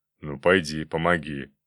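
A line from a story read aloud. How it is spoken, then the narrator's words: Grumbling mutter. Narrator (Russian): пробурчал дядя Слава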